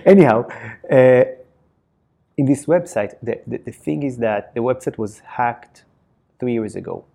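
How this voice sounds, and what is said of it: Israeli-accented English. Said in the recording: “my Israeli accent”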